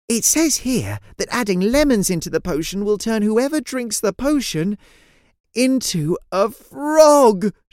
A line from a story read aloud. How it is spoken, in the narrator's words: she cried out